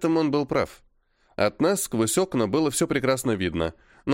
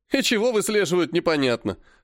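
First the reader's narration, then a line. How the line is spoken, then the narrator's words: Snort. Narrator (Russian): хмыкнул Серый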